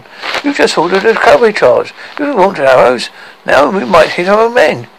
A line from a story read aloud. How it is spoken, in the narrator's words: cried the general, forgetting decorum